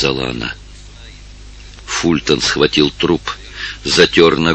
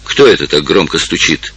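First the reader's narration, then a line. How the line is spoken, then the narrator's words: Angry question. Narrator (Russian): сердито спросила она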